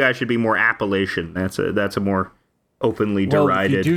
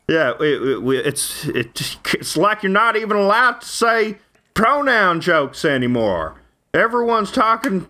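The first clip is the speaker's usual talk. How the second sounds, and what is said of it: Put-on Texas accent. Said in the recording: “I'm adopting the Texas guy accent. I shouldn't adopt Texas guy accent.”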